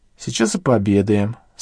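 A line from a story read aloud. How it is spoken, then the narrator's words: Calm. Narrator (Russian): спокойно говорила Василиса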